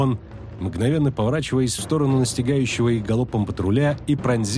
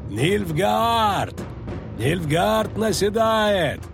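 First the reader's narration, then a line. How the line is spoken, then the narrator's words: Yelling at full lungs. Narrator (Russian): заорал он, что было сил в легких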